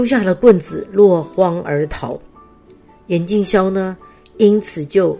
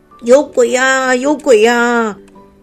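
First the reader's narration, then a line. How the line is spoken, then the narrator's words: Terrified screaming. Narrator (Chinese): 村民 吓得尖叫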